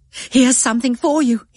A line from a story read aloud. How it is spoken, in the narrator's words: cried